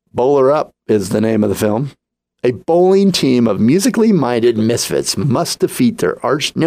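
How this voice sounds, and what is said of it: Usual voice. Nothing is said of it.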